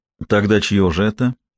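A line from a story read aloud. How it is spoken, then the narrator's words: Even voice, holding back nausea. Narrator (Russian): ровным голосом спросила пытаясь сдержать рвотную реакцию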